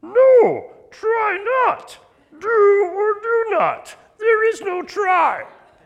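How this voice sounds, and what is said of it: Yoda character voice impression. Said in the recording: “do a good Master Yoda impersonation? ... Here's Master Yoda.”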